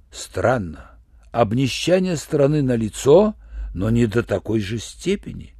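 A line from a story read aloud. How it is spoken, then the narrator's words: Plain. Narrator (Russian): сказал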